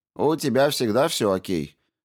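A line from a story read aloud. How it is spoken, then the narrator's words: Mock-angry grumble. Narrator (Russian): с притворной сердитостью пробурчал он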